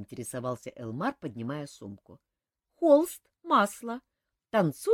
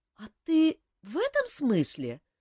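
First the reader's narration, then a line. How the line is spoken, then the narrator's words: Confused question. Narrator (Russian): растерянно переспросила она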